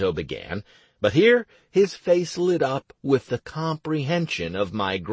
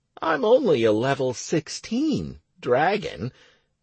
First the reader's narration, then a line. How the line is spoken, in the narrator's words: I went on in an innocent tone